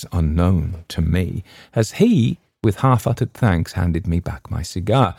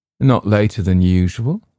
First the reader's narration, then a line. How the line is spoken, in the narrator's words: replied dryly